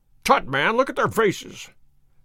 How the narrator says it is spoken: cried Holmes curtly

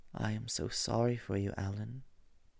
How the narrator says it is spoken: he murmured

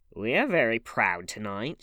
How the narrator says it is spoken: she sneered

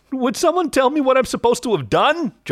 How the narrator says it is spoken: John yelled

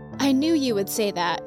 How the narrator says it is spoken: said

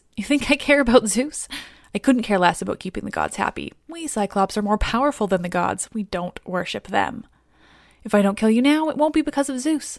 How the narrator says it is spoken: He laughs and laughs before he simply looks at Odysseus and says

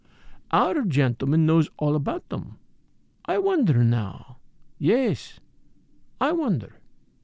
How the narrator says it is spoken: he murmured to himself

